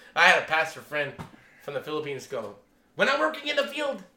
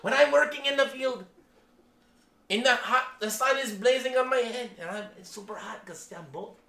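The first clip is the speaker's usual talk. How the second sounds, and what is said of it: Put-on Filipino accent. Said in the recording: “he used the Filipino accent.”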